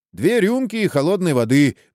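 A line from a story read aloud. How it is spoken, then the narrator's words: Rude. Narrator (Russian): грубо сказал Срета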